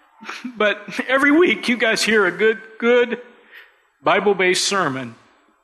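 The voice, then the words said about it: Choked-up, emotional voice. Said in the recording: “get choked up”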